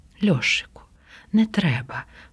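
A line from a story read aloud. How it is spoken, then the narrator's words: Quiet. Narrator (Ukrainian): промовила тихо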